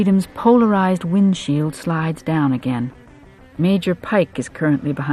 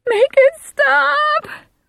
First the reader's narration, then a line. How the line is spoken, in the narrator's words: Susie screams